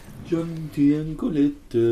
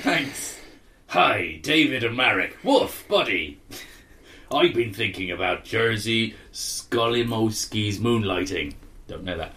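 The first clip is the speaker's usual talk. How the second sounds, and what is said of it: Pirate voice. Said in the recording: “I'll do Ancoletta as a pirate. ... Do a pirate.”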